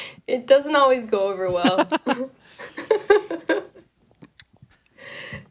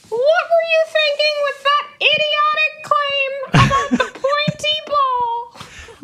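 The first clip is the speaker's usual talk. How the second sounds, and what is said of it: Silly dog character voice. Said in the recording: “in that dog voice”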